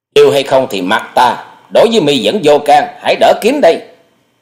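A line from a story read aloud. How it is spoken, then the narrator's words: Shouting back. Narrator (Vietnamese): quát lại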